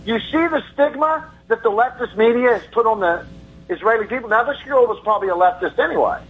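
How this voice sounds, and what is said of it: Southern American accent. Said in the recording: “I can tell you're racist by your accent... you're from the South”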